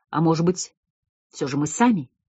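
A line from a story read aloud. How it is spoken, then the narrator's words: Quiet. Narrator (Russian): тихо произнес Северов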